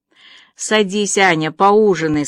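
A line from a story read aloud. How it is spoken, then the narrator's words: Plain. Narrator (Russian): сказала Марила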